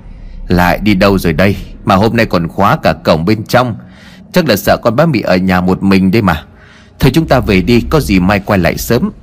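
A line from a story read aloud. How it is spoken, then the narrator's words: Sighing. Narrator (Vietnamese): ông thở dài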